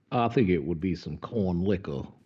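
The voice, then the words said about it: Deep, slow Southern drawl. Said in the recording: “Your Southern accent, is like... It's like what James Earl Jones would do as Foghorn Leghorn... it's deeper than just the chicken... it's a slower, more like molasses poured over Foghorn Leghorn”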